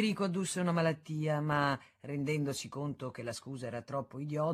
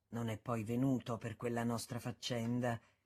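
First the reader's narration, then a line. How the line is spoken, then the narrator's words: Low aside. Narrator (Italian): disse sottovoce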